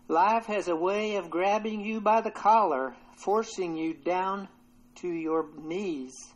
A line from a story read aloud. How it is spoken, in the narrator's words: With a distinct southern accent, the man exclaimed